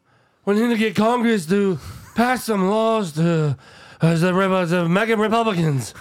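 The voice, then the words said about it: Joe Biden impersonation. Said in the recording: “I'm not very good at the Biden impersonation.”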